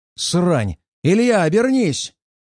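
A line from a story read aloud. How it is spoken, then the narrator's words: Yelled. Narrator (Russian): заорал я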